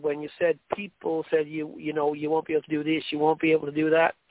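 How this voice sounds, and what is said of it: Irish accent. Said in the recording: “my Irish accent ... sometimes it's very hard for people to understand it”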